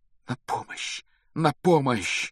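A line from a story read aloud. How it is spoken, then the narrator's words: Passionate whisper. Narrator (Russian): страстно шептал Гарри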